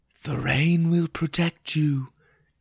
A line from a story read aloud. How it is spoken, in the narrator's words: it whispered